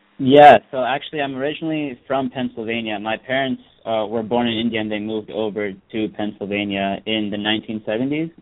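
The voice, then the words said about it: Slight Indian accent. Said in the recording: “you have a slight Indian sort of accent”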